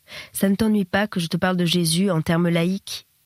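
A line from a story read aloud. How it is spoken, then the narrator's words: Sudden, deeply respectful, hesitant question. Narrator (French): demanda-t-il soudain d'un ton de respect profond, incertain des libertés qu'il pouvait prendre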